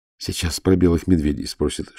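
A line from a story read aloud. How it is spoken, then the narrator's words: Whisper. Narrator (Russian): шепнула Ирина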